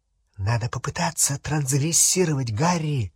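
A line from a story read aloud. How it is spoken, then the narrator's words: Whispered. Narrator (Russian): шепнула Гермиона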